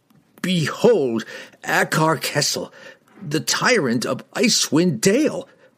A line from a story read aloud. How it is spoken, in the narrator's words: he cried